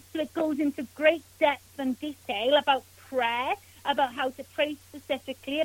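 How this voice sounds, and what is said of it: Welsh accent. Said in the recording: “as you can tell by my accent, my family are from Wales”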